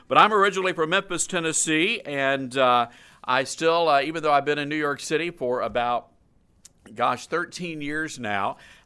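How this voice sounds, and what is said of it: Southern US drawl. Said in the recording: “a little bit of a Southern accent. A lot of people say that I talk funny, that I drawl ... we like to savor our vowels, so we just hold on to them for a little bit”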